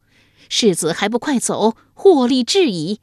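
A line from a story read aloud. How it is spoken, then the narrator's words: Woman speaking loudly. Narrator (Chinese): 马脸妇人 大声说道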